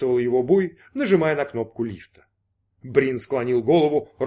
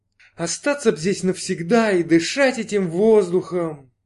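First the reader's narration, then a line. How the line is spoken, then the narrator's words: Exclaiming. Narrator (Russian): воскликнула Джанна Чандрагор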